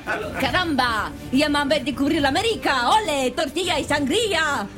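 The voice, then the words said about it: Put-on Spanish accent. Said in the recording (French): “c'est quoi cet accent espagnol”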